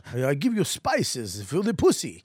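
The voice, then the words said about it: Bad put-on Spanish accent, Dracula-like. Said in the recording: “Spanish fucking blonde conquistador ... I don't know why it's fucking Count Dracula ... that was an awful accent ... That was the worst.”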